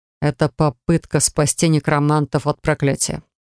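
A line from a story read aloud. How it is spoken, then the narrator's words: Calm reply. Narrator (Russian): спокойно, не в пример злющему обладателю воскрешающих перчаток, ответил Алистер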